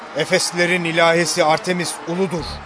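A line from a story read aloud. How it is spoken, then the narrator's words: Crowd shouting together. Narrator (Turkish): diye bağırışmaya başladılar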